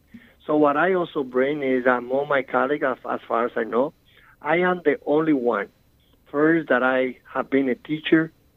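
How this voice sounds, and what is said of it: Strong foreign accent. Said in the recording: “I still have my strong accents... the citywide elected official with the strongest accents in the city of New York”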